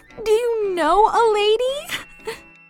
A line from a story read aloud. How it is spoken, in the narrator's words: sobbed the man's niece, frightened by his insane ramblings